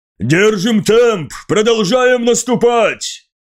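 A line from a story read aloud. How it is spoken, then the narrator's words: Shouted. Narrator (Russian): выкрикнул Маган, не переставая орудовать копьем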